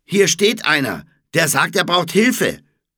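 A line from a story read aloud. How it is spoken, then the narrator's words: Female calling out. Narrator (German): rief sie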